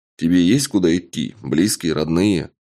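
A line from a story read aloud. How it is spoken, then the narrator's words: Plain. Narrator (Russian): спросил я разбойника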